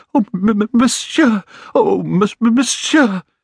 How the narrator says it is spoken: He kept stammering

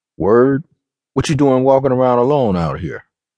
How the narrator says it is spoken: he asked

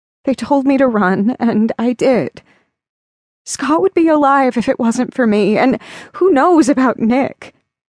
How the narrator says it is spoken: sobbed

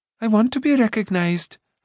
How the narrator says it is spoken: Ailanwy cried

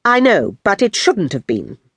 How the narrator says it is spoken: mother replied firmly

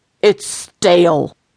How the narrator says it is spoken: yelled

